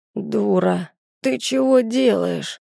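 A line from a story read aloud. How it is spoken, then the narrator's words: Man groaning, straining. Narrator (Russian): простонал мужик, пытаясь пошевелиться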